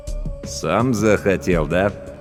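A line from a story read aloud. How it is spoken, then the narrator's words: With a snort. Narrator (Russian): Верещагин хмыкнул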